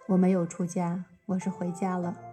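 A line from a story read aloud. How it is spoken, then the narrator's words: Calm, flat tone. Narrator (Chinese): 陈小旭只是淡淡的说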